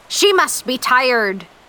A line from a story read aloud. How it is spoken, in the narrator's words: Captain Ahab shouted over the sounds of the ocean